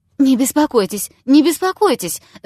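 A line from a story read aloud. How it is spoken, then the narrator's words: Babbling. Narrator (Russian): залепетал он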